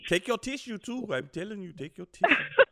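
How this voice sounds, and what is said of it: Mixed British African put-on accent. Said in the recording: “I sounded like a damn British African, didn't it? ... My impersonations get mixed up when I do them”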